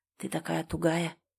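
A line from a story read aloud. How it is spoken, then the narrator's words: Low rough whisper. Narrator (Russian): прошептал он ей на ухо низким грубым голосом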